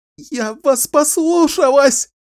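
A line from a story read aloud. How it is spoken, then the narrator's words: Sobbing. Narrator (Russian): рыдала она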